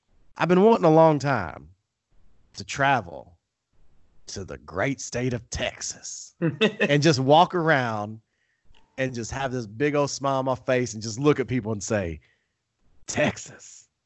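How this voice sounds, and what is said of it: Put-on Texan accent. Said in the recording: “here comes the accent.”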